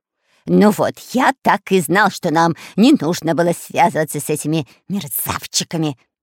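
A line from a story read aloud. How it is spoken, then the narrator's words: Hissing. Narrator (Russian): прошипел Дырка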